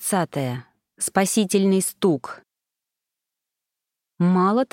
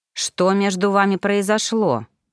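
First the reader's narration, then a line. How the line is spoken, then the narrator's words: Growled. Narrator (Russian): прорычал дракон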